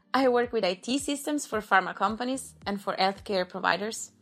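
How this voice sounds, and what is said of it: Italian accent. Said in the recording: “Italian as much as my accent.”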